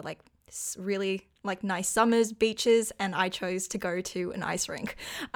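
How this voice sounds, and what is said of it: Australian accent. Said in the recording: “obviously by my accent, I am not American or from North America. I'm actually Australian”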